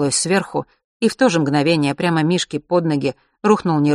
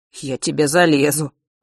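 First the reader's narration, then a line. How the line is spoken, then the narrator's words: Grumbling from above. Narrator (Russian): ворчал папа с крыши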